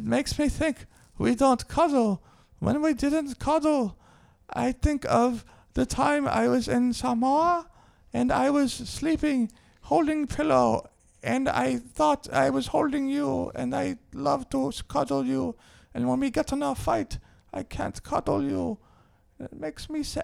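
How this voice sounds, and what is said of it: Samoan-accented impression of a man. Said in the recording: “bad Samoan impression. I think that was a pretty good impression”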